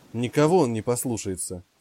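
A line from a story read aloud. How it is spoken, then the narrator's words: Snort. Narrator (Russian): фыркнул Джек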